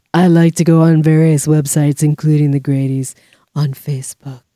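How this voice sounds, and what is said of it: Sultry imitation of an actress's voice. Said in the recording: “Is that your Kathleen Turner impression? ... You sound like you're doing Herman Munster. ... You got sultry at the end there.”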